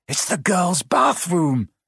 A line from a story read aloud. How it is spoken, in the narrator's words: Harry gasped